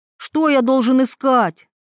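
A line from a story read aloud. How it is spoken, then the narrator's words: Sudden shout. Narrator (Russian): выкрикнул он вдруг, сам не зная, откуда пришли эти слова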